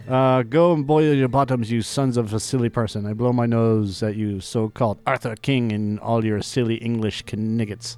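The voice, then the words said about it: Outrageous put-on French accent. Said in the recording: “I'm French... I have this outrageous accent.”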